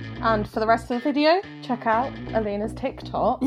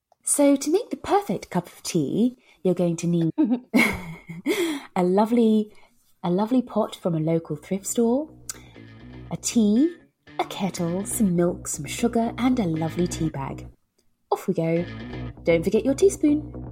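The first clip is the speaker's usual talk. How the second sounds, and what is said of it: Posh put-on accent. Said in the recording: “my my favourite posh accent to do the voiceover”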